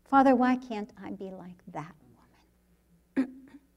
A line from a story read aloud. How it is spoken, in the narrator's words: You whisper